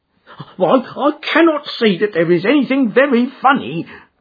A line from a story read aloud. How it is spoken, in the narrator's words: cried our client, flushing up to the roots of his flaming head